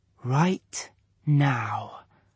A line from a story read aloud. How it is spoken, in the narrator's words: whispered